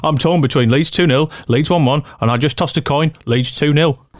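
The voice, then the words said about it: Put-on Brummie accent. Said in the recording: “a fantastic Brummie accent”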